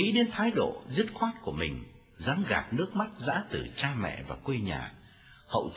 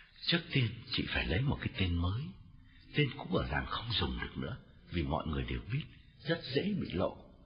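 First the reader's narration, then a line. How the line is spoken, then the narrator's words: Lowered voice. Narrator (Vietnamese): hạ giọng bảo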